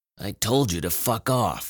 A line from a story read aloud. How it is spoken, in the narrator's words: he grumbled